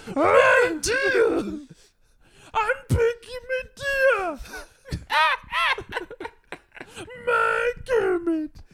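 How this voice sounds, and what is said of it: Miss Piggy character voice. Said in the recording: “you have a very good Miss Piggy impression ... Sounds like she's trapped under something.”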